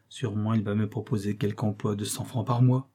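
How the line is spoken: Murmured. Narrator (French): murmura-t-il

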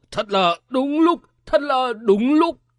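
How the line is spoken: Loud laughter. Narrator (Vietnamese): Tây Thiên Thần Ông cười to nói

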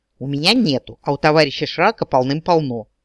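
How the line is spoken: Snorting. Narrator (Russian): фыркнул Дроу

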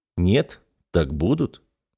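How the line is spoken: Calm. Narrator (Russian): спокойно сказал

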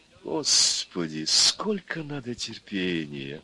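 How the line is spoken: Sighing. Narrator (Russian): вздохнула первая голова Горыныча

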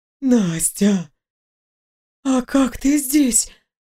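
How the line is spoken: Forced half-whisper. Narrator (Russian): выдавила полушепотом

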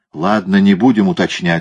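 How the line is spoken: Plain. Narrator (Russian): сказал Кориолан

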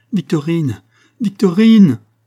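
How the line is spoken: Shouting. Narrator (French): cria-t-elle

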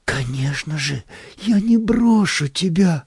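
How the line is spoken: Tender whisper, nanny. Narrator (Russian): в умилении шептала нянька

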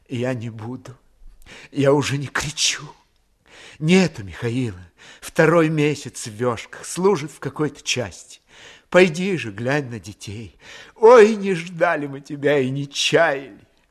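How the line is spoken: Soft, tearful yet smiling. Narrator (Russian): Улыбаясь сквозь слезы, тихо сказала

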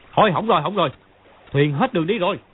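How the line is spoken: Crying out. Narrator (Vietnamese): Mã Quan Tá kêu lên

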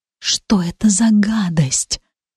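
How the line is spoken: Whisper into ear. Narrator (Russian): шепнула ему в самое ухо

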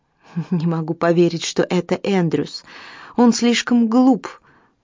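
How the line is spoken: Exclaiming woman. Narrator (Russian): воскликнула Фрина

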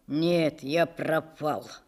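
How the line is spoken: Sad and sober. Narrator (Russian): сказал он как-то уже совсем грустно и трезво

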